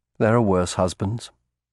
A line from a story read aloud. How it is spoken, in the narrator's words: said quietly